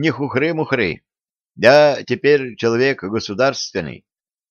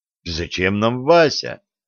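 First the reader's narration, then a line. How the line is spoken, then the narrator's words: Offended drawl. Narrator (Russian): обиженно протянул он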